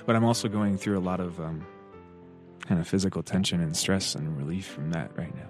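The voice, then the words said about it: Shaky, slightly trembling voice. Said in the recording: “It's chilly out here, so I apologize if my voice sounds a little shaky.”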